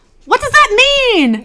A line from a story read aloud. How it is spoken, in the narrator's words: he yells out